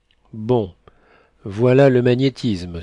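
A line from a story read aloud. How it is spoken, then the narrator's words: Exclaimed. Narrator (French): s'écria Gazonal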